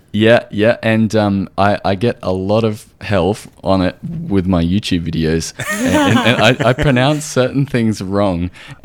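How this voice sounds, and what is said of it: Australian accent. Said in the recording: “I'm from Australia, so I have this weird Australian accent”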